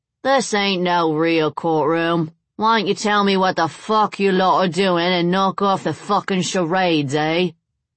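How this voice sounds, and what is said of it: Cockney accent, defiant tone. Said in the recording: “His Cockney accent and defiant tone”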